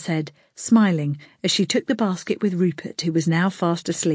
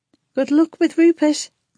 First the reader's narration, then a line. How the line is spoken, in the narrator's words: the nurse called out